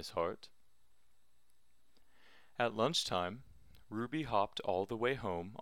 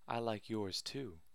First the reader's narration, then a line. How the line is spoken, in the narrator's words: whispered Ruby